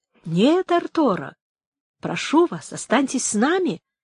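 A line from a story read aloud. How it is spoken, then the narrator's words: Friendly tone. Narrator (Russian): сказал дружеским тоном Антонио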